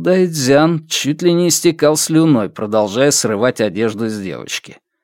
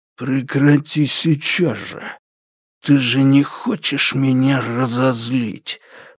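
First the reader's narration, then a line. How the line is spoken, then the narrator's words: Hiss. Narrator (Russian): прошипел Лю Дахун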